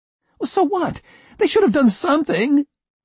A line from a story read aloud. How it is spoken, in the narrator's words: I cried